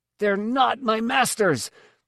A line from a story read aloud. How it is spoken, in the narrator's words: said furiously